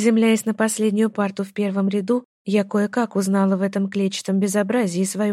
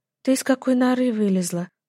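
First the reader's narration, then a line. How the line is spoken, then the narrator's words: Timid. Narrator (Russian): робко уточнила я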